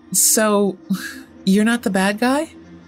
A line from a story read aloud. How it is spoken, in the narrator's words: He laughed